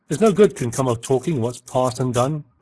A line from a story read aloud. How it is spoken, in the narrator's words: cried Cahusac, more sullen now than truculent